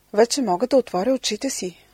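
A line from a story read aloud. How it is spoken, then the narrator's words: Exclaiming. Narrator (Bulgarian): възкликнала тя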